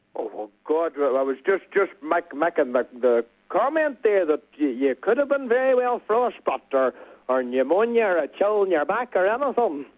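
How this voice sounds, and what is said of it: Strong local accent. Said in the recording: “you have a fantastic accent... And it's a local accent”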